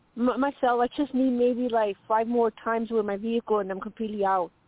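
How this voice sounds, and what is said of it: Strong dialect, hard to understand. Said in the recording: “that was a little hard because of the dialect”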